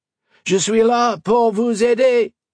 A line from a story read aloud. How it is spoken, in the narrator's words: he shouted